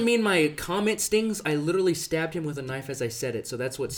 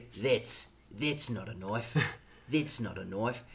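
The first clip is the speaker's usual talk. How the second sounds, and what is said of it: Exaggerated mock Australian accent. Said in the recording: “Excuse our Australian accents ... completely butcher Australian accents”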